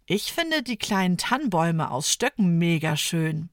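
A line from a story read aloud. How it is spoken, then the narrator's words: Plain. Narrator (German): sagt Ida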